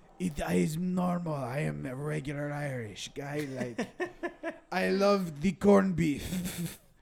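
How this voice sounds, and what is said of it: Fake put-on Irish accent. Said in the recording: “obviously a fake accent”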